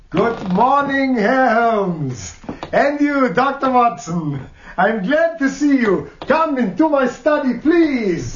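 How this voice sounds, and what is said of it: Exaggerated comic operetta accent. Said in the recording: “that ridiculous comic operetta accent”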